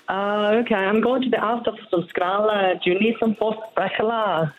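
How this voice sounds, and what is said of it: Put-on Scouse Liverpool accent. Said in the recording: “the Liverpool one, the Scouse ... give us a blast of Scouse.”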